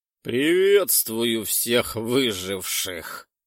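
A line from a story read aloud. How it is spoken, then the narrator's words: Omnipresent, slightly hoarse voice. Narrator (Russian): Раздался вездесущий голос Кроноса с легкой хрипотцой, как будто полминуты назад он сильно прокашлялся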